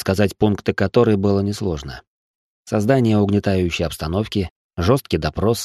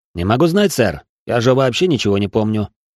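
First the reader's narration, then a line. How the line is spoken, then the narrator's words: Calm reply. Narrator (Russian): спокойно ответил я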